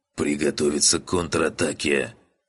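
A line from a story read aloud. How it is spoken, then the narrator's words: Hoarse, strained. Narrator (Russian): прохрипел Череп, с трудом поднимаясь на ноги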